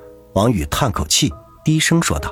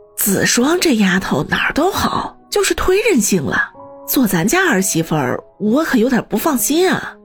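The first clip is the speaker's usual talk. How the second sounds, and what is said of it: Quiet muttering older woman's voice. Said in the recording (Chinese): “小声的嘀咕道”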